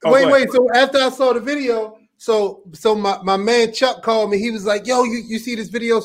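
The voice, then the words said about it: Strong Baltimore accent. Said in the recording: “that Baltimore accent is as strong as ever”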